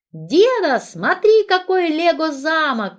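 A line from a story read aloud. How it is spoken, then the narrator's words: Child shouting from afar. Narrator (Russian): кричал Ярик из другой страны, другого часового пояса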